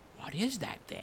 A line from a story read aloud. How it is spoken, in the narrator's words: ask anxiously